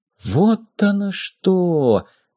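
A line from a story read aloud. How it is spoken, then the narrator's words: Whisper. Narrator (Russian): прошептал Зих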